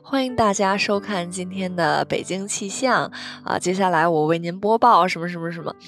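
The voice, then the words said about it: Imitating a TV weather forecast presenter. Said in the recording (Chinese): “我小时候特别喜欢模仿那个天气预报的呃主持人”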